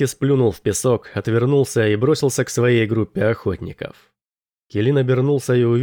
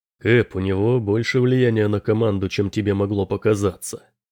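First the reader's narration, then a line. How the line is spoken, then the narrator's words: Quiet. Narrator (Russian): Тихо сказал Бронсон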